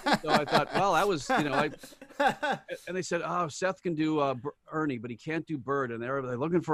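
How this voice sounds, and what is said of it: Usual voice. Nothing is said of it.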